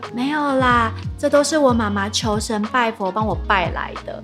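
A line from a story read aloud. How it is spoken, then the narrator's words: Very quiet. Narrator (Chinese): 她就小小声地说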